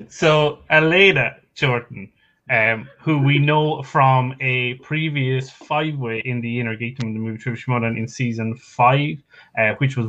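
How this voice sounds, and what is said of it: Irish accent. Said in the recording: “I'm, I'm Irish. Okay, it's the accent.”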